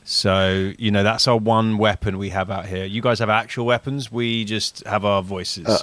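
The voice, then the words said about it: English accent. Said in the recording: “you have an English accent ... Haven't lost the accent”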